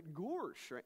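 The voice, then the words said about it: Goofy cartoon character voice. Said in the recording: “I did this whole thing just so I could do the impersonation. I've gotten pretty good at it over the years.”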